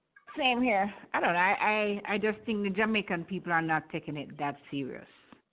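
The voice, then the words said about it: Jamaican accent. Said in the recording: “From your accent, I know you're Jamaican. I know you're Jamaican from your accent”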